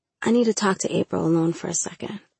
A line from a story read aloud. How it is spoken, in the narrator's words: I whispered to Michael